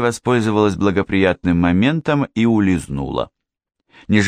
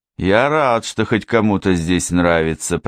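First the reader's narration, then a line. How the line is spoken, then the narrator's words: Gloomy grumble. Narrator (Russian): проворчал Уолли, хмуро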